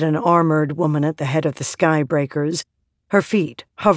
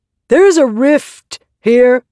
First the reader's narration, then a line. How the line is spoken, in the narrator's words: said, raising her voice